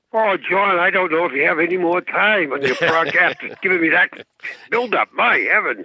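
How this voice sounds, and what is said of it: Boston accent. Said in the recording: “coming to us from Boston. You can hear his accent.”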